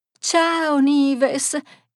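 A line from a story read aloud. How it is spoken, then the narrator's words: Smiling exclamation. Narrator (Italian): esclamò sorridente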